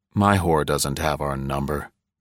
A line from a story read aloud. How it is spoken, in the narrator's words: I said, but only softly because Sharon was no longer there to be hurt by it